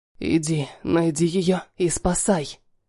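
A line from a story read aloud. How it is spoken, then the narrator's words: Whispered. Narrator (Russian): шепнул Халиль Вахиду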